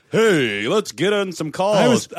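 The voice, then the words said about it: Imitates a morning radio DJ. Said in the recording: “That was my impression of Morning Zoo Crew.”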